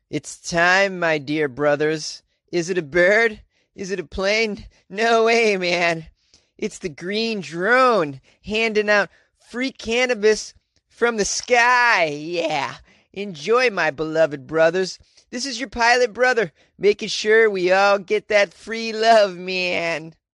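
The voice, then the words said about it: Impression of the message's writer. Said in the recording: “That was my impression of the person who wrote that”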